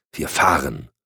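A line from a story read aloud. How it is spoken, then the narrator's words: Impatient hissing snap. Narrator (German): fauchte Cotton ungeduldig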